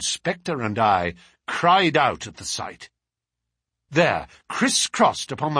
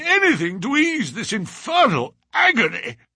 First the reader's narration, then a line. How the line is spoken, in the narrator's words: he cried